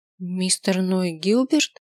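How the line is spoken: Uncertain question. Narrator (Russian): Неуверенно спросила я

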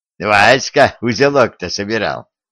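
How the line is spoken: Laughing. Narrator (Russian): рассмеялся Гордон

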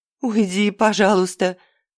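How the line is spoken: Sobbing mumble. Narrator (Russian): всхлипывая, бормотала девушка

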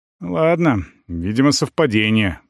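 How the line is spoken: Muttering. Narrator (Russian): бормочу

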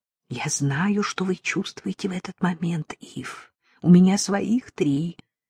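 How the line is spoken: Soft whisper. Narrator (Russian): тихонько прошептала

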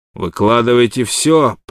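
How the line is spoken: Thundering. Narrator (Russian): прогремел Уилсон

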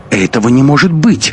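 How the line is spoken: Heated exclamation. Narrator (Russian): запальчиво воскликнула Анна

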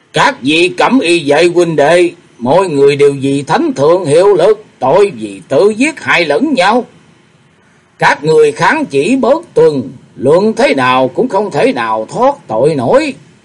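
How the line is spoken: Commander's loud call. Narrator (Vietnamese): Một người thống lĩnh lớn tiếng kêu lên

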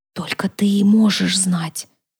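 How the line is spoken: Whispered. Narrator (Russian): прошептала рыжая

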